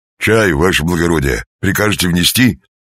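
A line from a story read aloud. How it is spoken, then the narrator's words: Cheerful bass report. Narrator (Russian): доложил бодрым басом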